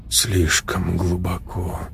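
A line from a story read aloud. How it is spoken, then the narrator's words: Strained, forced-calm muttering. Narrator (Russian): пробормотал Леша, стараясь говорить спокойно, но голос все равно звучал чужим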